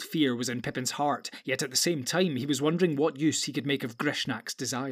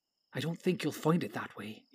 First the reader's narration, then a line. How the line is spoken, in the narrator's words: whispered